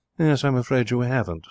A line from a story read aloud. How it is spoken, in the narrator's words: said Elsa